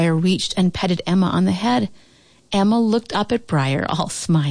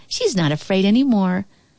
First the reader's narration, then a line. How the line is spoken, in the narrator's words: Ellie giggled